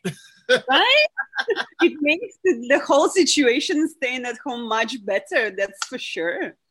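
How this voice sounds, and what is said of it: Russian accent. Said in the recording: “I hear in your voice that you have a Russian accent.”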